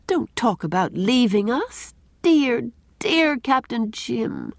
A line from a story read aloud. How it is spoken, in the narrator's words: pleaded Anne in a choked voice